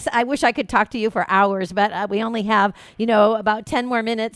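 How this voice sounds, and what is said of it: Excited, eager voice. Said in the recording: “I'm so excited. I know you can hear it in my voice.”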